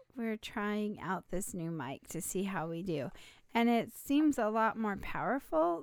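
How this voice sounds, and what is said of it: Slightly raspy voice. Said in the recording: “I've been fighting a little seasonal allergies, and so my throat's a little raspy. My voice is a little raspy”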